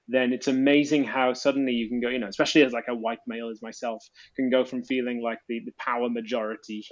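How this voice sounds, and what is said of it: Posh British accent. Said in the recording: “I'm more than just a British guy ... this posh sounding accent, according to your Australian ears”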